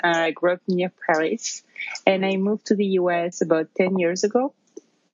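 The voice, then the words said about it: French accent. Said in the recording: “you can probably tell from my accent, I'm originally from France.”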